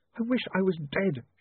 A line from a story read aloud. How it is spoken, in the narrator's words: she sobbed